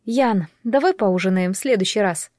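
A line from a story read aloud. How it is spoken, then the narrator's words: Uneasy request. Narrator (Russian): попросила, понимая, что вряд ли сумеет спокойно и непринужденно есть и поддерживать разговор после такого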